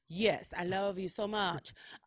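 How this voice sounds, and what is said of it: Attempted Ukrainian accent, sounds British. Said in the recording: “I don't know how to do a Ukrainian accent. ... that was kind of a British accent.”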